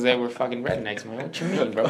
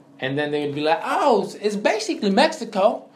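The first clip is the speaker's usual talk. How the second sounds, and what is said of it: Put-on redneck accent. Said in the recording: “why'd you have a redneck accent?”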